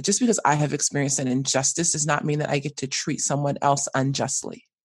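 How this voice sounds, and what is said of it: American accent. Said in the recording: “when they realize I'm American, you know, and they hear my accent”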